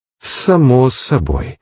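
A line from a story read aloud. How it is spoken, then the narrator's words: Hissing. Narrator (Russian): прошипел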